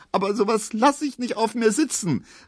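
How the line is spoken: Sobbing cry. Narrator (German): rief jetzt Pauline schluchzend

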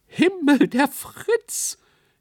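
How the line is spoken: Shrieking on stage. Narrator (German): kreischte jemand auf der Bühne

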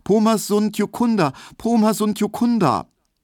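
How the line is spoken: High, fearful repeated calling. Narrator (German): er rief nur immer wieder ganz hoch und ängstlich

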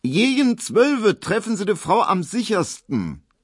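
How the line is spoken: Said loudly. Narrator (German): sagte so laut, dass es Emil Kubinke hören musste

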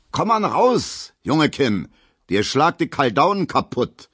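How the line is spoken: Calling after someone. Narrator (German): ruft Gustav Schmelo hinterher

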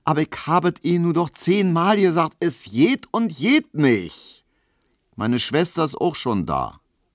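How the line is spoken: Calling out. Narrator (German): rief Hedwig

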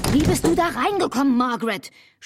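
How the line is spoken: Shouted. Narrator (German): schrie Albert

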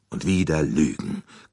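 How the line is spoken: Bitter growl. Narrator (German): knurrte er erbittert

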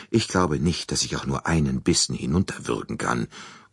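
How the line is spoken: Mutter. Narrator (German): murmelte sie

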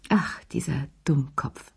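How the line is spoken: Sighing. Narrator (German): seufzte sie

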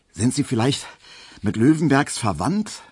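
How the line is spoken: Panting question. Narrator (German): fragte Emil Kubinke, während sie beide den Korb doch schon etwas keuchend durch den Hausgang schleppten

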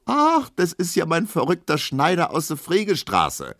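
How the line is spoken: Calling out. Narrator (German): ruft ein anderer

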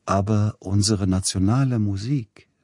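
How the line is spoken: Plain. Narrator (German): sagte Edward

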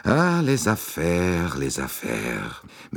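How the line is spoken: Sighing. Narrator (German): Monsieur Bouc seufzte

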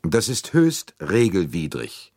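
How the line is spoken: Cold retort. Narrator (German): entgegnete Arbuthnot kalt

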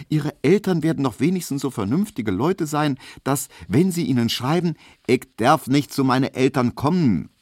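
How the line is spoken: Calling out. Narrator (German): rief Hedwig

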